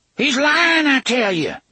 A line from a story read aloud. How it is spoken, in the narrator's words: Gasher cried